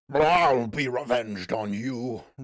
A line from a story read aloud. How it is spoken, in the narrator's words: roared Mary Mineral